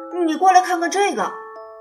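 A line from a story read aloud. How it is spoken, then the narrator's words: Shouting. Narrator (Chinese): 詹姆士跑过来，大叫着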